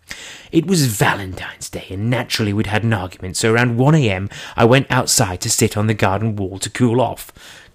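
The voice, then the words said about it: Imitated posh English accent. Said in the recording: “I'll try and do it in his posh accent because he is very posh ... I'm not doing any more Charlie accent”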